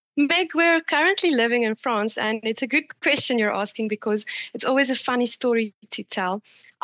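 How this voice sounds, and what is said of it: South African accent. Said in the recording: “we can hear you've got a South African accent”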